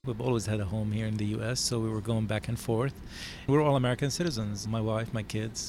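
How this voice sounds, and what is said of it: Speaks English with an accent. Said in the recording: “I have an accent. I'm trying to work on it still.”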